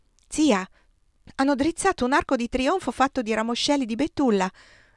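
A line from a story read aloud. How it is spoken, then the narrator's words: Exclaiming. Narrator (Italian): esclamò Marcellina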